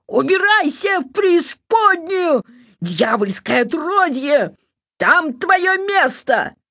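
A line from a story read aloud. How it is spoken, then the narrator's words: Shout across forest. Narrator (Russian): крикнул на весь лес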